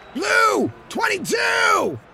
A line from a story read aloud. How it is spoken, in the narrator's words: He shouted down the right side of the line